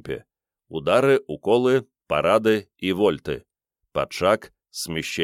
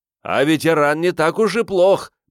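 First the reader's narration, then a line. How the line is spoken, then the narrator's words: Shout right into ear. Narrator (Russian): прокричал в самое ухо Риордану Меркиец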